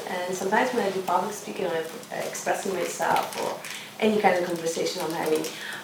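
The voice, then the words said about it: Speaker with a foreign accent. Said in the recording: “I have accent”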